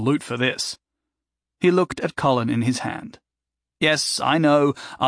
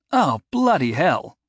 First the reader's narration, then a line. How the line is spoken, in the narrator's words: he exclaimed